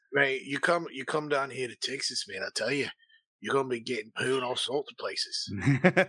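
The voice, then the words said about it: Poor attempt at Australian accent. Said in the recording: “I wish I had that freaking accent, man. ... that's the worst accent I've ever heard.”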